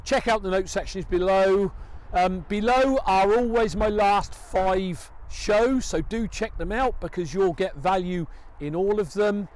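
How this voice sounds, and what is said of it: Loud, shouting voice. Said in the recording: “Apologies if I'm shouting ... I've got to shout because it's a long way away and cars are going by”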